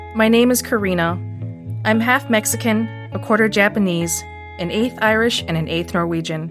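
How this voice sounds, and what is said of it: Northeast Wisconsin accent. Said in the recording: “my Northeast Wisconsin accent ... you can hear it in my Wisconsin accented voice”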